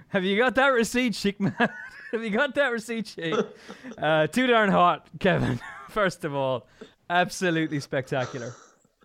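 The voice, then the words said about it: Impression with accent shifting midway. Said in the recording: “That accent evolved mid-impression. ... It became a bit of an Alan Brazil, didn't it? ... It was Ed Chamberlain doing Alan Brazil.”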